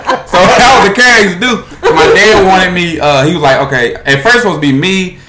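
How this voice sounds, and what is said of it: Usual voice. Nothing is said of it.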